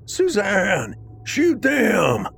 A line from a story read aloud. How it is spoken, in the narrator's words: screamed in a panic